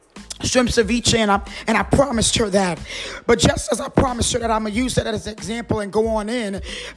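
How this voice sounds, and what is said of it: Raspy voice. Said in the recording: “my voice is a little raspy”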